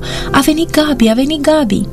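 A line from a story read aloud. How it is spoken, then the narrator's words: Children shouting. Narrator (Romanian): copiii strigau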